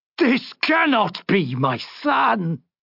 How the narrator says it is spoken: he roared in anguish

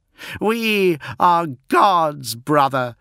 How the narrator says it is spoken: shouted Fulgrim

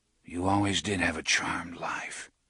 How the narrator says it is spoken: he whispered to it

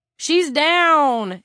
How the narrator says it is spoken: Eric yelled

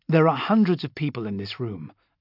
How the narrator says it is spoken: I said calmly

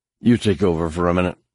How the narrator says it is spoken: he said

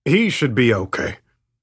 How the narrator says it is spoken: he said in a grim voice

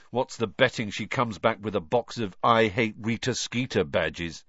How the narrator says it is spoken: said Ron

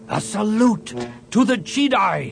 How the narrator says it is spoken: he shouted

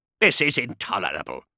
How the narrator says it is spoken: snapped Veritas

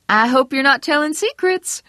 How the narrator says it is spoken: Vera Smith said brightly

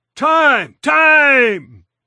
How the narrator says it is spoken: the home plate umpire bellowed

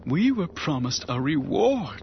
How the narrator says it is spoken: she gasped

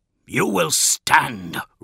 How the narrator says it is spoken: roared Dawn

